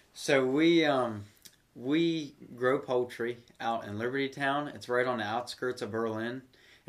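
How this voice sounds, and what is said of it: Noticeable regional rural accent. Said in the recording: “I can tell so, by the accent.”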